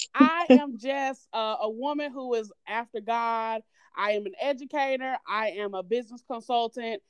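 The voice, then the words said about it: Southern American twang. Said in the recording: “I am from North Carolina. You probably heard it in that Southern twang”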